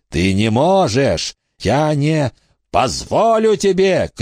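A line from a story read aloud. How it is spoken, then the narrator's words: Furious shout. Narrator (Russian): крикнул Баг с глазами, горящими от ярости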